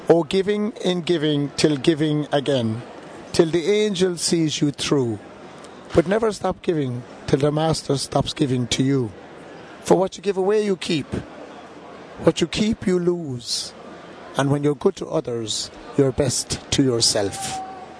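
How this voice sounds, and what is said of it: Noticeable foreign accent. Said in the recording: “your accent, your beautiful accent”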